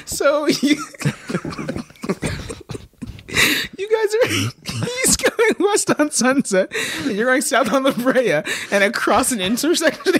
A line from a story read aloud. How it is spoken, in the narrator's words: he yells at you